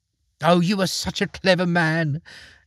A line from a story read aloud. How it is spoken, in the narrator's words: exclaimed the field mouse